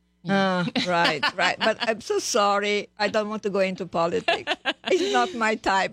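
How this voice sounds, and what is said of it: Eastern European accent. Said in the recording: “I have an accent ... it's a gorgeous accent ... it sounds like it's from Eastern Europe”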